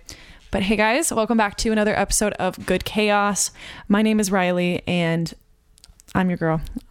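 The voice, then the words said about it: Tired, worn-out voice. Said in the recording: “I'm sure you can tell from my voice, but your girl's had a week. I am exhausted physically, emotionally, mentally, spiritually. I am so tired.”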